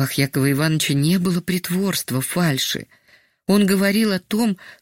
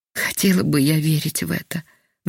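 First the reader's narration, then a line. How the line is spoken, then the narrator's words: Sighing, sick woman. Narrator (Russian): вздохнула больная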